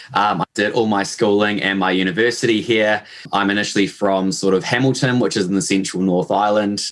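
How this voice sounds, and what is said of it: New Zealand accent. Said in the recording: “as you probably picked up from my accent, uh, I am born and raised in New Zealand”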